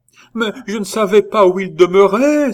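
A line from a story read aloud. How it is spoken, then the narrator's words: Exclaimed. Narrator (French): s'écria Beau Sire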